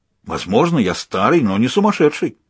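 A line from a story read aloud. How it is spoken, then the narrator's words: Exclaimed. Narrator (Russian): воскликнул Людзе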